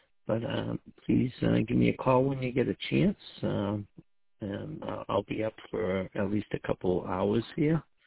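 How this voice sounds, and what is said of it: Congested, sick-sounding voice. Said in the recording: “You can probably tell in my voice I get a little bit of a cold”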